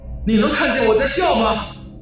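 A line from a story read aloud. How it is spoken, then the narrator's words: Shouting. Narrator (Chinese): 他大喊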